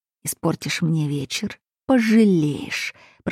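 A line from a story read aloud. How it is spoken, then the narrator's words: Hiss. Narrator (Russian): прошипел бывший муж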